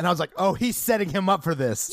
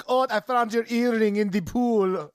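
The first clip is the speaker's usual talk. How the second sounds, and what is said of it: Bad put-on German accent. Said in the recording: “That is the worst German accent I've ever heard in my life.”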